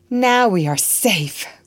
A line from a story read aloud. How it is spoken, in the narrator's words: cried Phineas joyfully